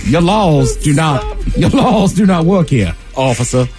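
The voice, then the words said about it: Put-on accent. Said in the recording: “I don't know why I have an accent.”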